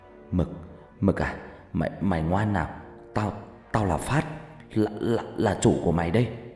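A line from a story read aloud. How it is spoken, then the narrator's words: Trembling voice. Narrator (Vietnamese): Phát đứng dậy từ từ, giọng run run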